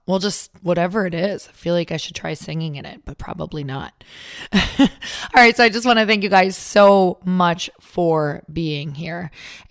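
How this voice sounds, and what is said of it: Raspy hoarse voice. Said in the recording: “my raspy voice. ... sexy voice”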